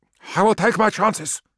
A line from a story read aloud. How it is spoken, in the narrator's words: snapped Nagasena